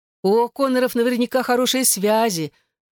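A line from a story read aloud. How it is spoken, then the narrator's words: Envious exclamation. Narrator (Russian): с завистью воскликнула Моника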